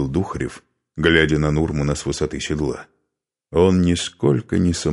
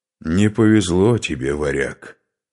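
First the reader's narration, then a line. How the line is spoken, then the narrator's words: Through gritted teeth. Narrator (Russian): процедил Скарпи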